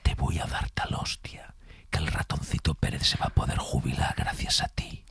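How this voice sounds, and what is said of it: Menacing whisper. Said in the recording (Spanish): “susurrada ... en susurro, que da mucho más miedo cuando te lo dices susurrado”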